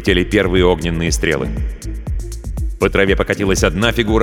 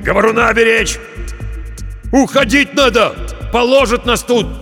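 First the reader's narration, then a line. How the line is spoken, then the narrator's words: Shout. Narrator (Russian): крикнул он проводнику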